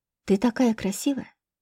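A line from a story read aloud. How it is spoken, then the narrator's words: Quiet. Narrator (Russian): сказал негромко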